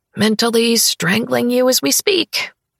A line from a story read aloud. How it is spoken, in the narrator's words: I mutter